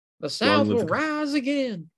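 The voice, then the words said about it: Put-on Southern accent. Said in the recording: “Oh, that's pretty good. That's a lot better than my Southern accent.”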